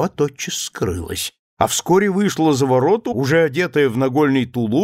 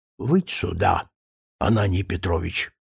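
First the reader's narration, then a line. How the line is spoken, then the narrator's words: Whisper. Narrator (Russian): Соцкий шепотом сказал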